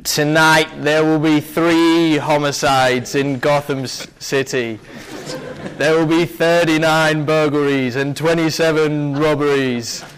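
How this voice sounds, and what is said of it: Slow put-on American accent. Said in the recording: “in an American accent ... his American is just slowing down the words”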